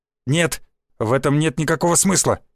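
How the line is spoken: Barked. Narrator (Russian): рявкнул Юсупов

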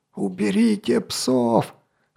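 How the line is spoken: Hoarse call from a wall. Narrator (Russian): хрипел со стены Гавен

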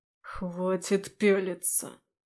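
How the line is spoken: Hiss. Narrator (Russian): прошипел он

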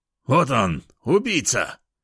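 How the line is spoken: Man shouting. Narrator (Russian): прокричал мужчина

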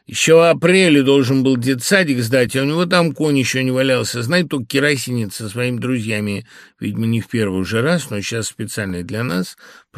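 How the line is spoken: Loud shout, hefty woman. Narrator (Russian): прокричала здоровенная бабища с усами

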